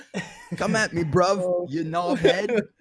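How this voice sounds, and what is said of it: Put-on Cockney British accent. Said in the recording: “Woody and Trish are saying to do your British accent ... Straight to Cockney accent.”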